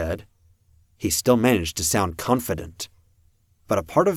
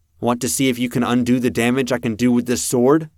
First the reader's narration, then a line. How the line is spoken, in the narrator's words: I asked, and my voice carried